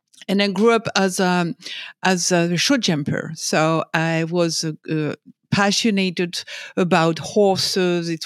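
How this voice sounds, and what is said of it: French accent. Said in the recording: “I was born and raised in France, as my accent can tell you.”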